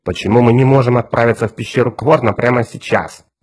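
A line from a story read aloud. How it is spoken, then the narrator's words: Displeased grumbling. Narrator (Russian): недовольно ворчал Отто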